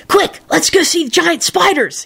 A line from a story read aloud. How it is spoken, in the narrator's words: he hissed